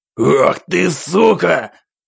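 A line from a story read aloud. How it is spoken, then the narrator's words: Man's angry roar, drowned out. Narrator (Russian): Взревел в гневе мужчина, но его голос тут же утонул в грохоте играющей музыки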